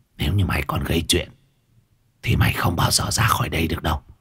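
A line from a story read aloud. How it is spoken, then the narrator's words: Old woman's grumbling warning. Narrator (Vietnamese): Mụ già cảnh cáo Lê rồi lầu bầu lầm bầm chửi bới một hồi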